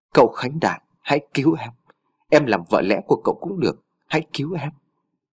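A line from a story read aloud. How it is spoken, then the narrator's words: Faint blood-choked whisper. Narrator (Vietnamese): Thị Nhung thều thào nói bằng giọng khe khẽ vì cổ họng đã ngập máu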